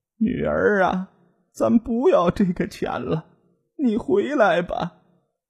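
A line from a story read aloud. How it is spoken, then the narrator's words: Mother crying, pleading. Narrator (Chinese): 妈妈哭着求道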